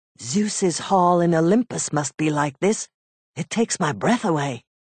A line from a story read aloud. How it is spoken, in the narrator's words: Telemachus whispered, very softly for fear someone might hear